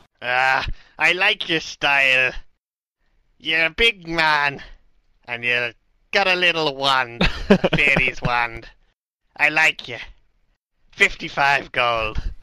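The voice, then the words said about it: Strange mixed Celtic pirate accent. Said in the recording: “strange Irish, Scottish, Welsh accent... Pirate.”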